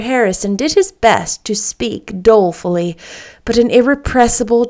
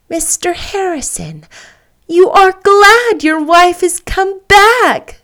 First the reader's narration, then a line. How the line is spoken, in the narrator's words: cried Anne